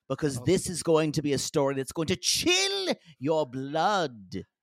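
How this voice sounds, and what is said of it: Put-on storytelling accent. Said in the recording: “didn't have that accent earlier when you spoke”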